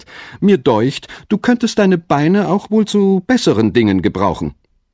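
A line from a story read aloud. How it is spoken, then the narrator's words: Laughing. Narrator (German): sagte der Hase lachend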